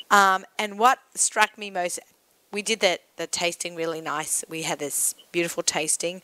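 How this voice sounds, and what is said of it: Non-rhotic accent, drops the R. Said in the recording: “I know it sounds really funny with my accent ... Peerless with an R. I say Peerless because that's my accent, but it actually has an R in there”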